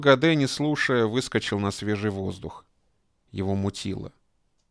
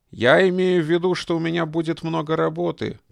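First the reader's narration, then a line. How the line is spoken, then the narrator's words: Shouting after someone. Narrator (Russian): крикнул Моро ему вслед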